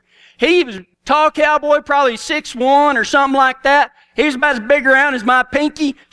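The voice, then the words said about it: Strong Texan accent. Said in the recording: “when y'all think about Texas, I know my accent is bad”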